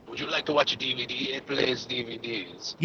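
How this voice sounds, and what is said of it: Unidentifiable put-on accent. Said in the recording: “I don't know what kind of accent that was. ... I'm pretty sure it was offensive.”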